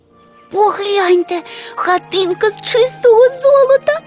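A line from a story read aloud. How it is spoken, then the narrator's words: Excited exclamation, tiny creature. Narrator (Ukrainian): захоплено вигукнуло крихітне звірятко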